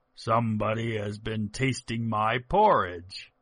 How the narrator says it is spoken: the big bear growled out

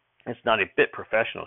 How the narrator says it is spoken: she said

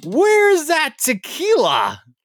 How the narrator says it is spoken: Kevin loudly asks

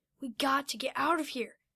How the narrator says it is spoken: Noah then whispered to Kinzo

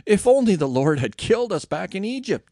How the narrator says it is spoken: moaned

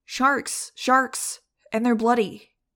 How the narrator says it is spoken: shouted

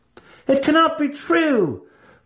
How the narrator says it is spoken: one student cried

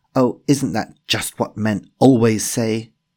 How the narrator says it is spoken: shouted back downstairs

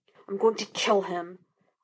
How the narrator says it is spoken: Laster hissed

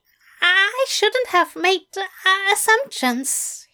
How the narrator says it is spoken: he stammered

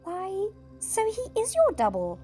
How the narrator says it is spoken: exclaimed Queen Lucy

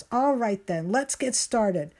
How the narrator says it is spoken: Christabel shouts

